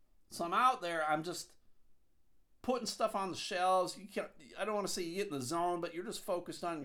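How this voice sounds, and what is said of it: Usual voice. Nothing is said of it.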